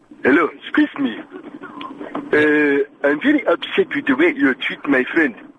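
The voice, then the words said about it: Caller speaking in bad put-on accent. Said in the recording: “bad accent man? ... Such a bad accent”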